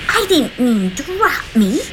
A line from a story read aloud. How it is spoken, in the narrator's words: Juanita yelped as she landed with a thud on a cold, hard brick surface